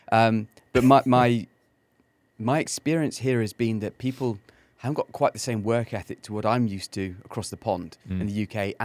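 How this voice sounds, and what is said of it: English accent. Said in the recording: “I've got the English accent”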